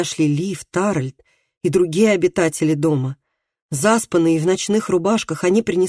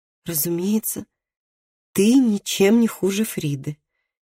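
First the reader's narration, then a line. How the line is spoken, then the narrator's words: Soft. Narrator (Russian): мягко сказала Габриэла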